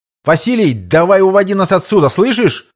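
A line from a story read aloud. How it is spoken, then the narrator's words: Shouting without megaphone. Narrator (Russian): позабыв про рупор, прокричал Родион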